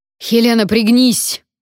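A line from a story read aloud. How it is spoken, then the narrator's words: Exasperated roar. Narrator (Russian): проревел Вонвальт, и, судя по тону, уже не в первый раз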